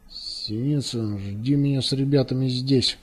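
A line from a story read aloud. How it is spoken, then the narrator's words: Through clenched teeth. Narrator (Russian): проговорил сквозь зубы Зоринш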